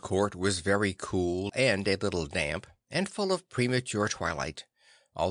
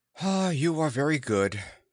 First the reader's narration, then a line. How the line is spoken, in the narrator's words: sighed